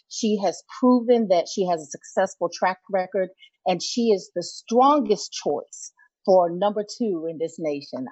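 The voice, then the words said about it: Excited, energetic voice. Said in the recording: “I'm still excited about her. You can tell in my voice. ... we can definitely tell.”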